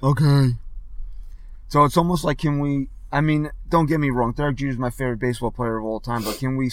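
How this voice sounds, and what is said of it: Worn-out, strained voice. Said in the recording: “my voice is so far gone”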